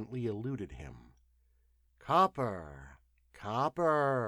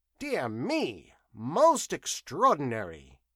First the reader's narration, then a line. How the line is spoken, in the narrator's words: exclaimed